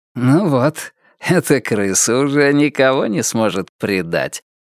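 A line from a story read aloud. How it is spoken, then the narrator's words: Remark, then laughing. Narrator (Russian): заметил мистер Крупп и засмеялся собственной шутке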